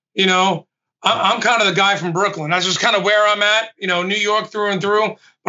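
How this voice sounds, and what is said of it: New York accent. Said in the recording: “I can't tell from the accent... At least I have an accent.”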